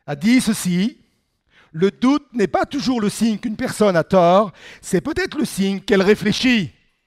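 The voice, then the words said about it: French spoken with English-speaker accent. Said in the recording (French): “notez mon accent anglophone”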